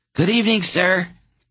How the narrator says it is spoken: Geryon said, deliberately forcing his voice up into the squeaky registers of a much younger boy

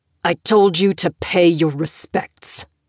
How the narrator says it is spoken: he growled

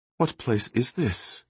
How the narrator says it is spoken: he asked quietly

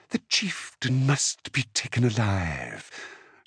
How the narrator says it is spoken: Zazuli purred

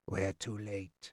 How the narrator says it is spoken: Chade said softly

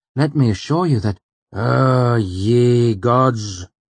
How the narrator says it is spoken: Elodin sighed, disgusted

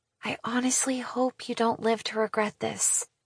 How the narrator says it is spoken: she whispers back

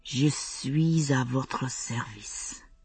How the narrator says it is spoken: he whispered back

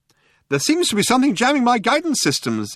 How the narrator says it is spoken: explained the computer brightly

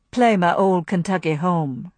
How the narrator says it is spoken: he suggested smoothly

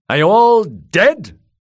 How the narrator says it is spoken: roared Kettleblack

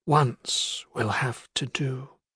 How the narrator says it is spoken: he replied softly

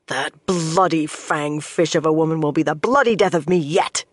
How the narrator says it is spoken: growled

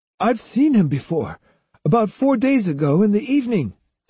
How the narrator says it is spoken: said the florist, who went on talking excitedly

